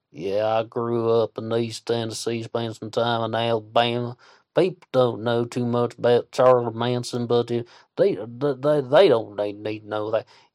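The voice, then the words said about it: Imitates a hard Southern accent. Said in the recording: “who has a very hard Southern accent ... he still held on to his Southern charm”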